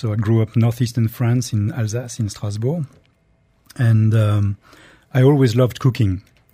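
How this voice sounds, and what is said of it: French accent. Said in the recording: “as you can judge by my accent, I am French”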